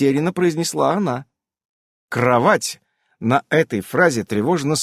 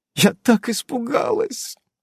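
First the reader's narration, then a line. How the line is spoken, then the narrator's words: Tearful babbling. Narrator (Russian): лепетала ведьма сквозь слезы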